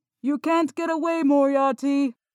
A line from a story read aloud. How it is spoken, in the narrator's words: Holmes shouted